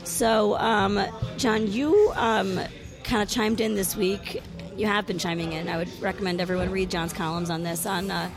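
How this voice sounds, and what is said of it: Sick, weird-sounding voice. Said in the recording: “You don't sound as well as you usually do ... I'm sick, so obviously my voice sounds weird ... all the coughing”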